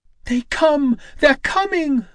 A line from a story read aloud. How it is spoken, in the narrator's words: A woman on the roof of a nearby temple shrieked the warning